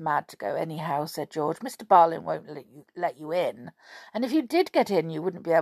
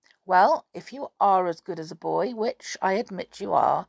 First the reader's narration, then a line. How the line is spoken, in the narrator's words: said Julian